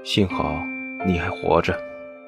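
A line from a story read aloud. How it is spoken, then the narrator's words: Cold murmur. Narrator (Chinese): 听他有些冰冷的声音，喃喃低语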